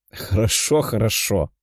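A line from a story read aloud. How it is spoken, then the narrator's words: Laughing. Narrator (Russian): рассмеялся парень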